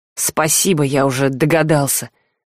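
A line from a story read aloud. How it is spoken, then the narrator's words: Gruff mutter. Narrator (Russian): буркнул парень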